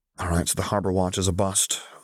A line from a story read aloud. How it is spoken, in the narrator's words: Luke grumbled